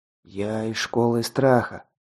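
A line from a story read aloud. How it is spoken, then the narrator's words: Muttering. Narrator (Russian): забормотал он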